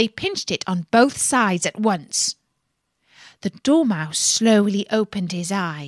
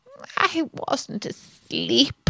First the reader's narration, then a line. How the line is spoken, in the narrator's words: said in a hoarse, feeble voice